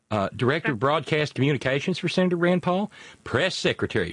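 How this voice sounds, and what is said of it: Put-on Southern girl accent. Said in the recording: “I'm using my Southern girl accent.”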